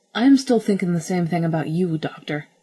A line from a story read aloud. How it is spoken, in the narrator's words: snapped